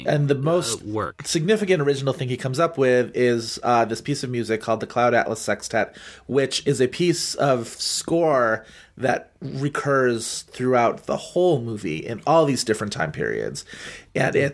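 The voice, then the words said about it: Strained, fading hoarse voice. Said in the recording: “losing my voice”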